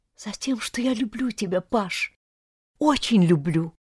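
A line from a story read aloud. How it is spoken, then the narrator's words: Hurried tearful whisper. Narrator (Russian): зашептала торопливо и слезно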